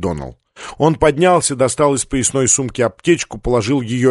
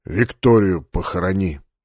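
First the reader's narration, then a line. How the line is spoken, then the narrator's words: Quiet request. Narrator (Russian): тихо попросил он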